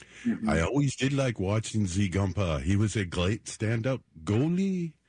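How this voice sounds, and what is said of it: Put-on French-Canadian accent. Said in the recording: “accent, too... French-Canadian”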